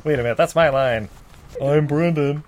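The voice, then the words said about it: Put-on Canadian accent. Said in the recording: “Your Canadian accents are on point.”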